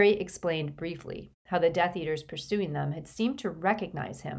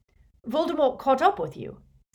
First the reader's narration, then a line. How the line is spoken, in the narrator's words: said Lupin sharply